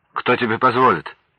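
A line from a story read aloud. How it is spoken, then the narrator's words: Sharp question. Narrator (Russian): Моргунов резко спросил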